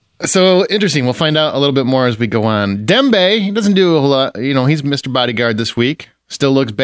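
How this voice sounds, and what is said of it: Usual voice. Nothing is said of it.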